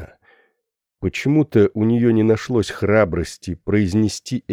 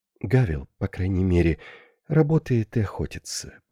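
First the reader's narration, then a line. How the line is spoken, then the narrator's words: Widow's whisper. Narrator (Russian): прошептала вдова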